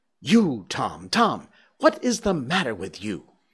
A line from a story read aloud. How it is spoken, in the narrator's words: she gasped out